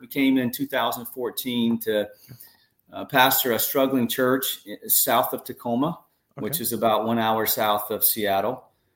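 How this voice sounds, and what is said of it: North Carolina Southern accent. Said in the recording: “moved to Southern California from North Carolina. So you'll know my accent is not, yeah. Not a Washingtonian”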